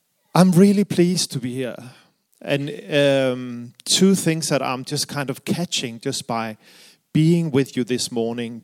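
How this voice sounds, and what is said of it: Danish accent in English. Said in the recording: “the reason for my accent is I am from Denmark”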